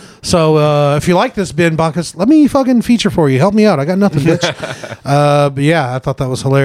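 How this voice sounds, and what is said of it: Usual voice. Nothing is said of it.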